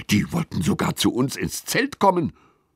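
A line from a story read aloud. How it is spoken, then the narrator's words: Hissing. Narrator (German): zischt Lilly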